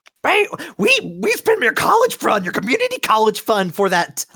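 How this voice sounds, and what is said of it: Character voice of an angry mother. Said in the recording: “I'm not doing that voice anymore.”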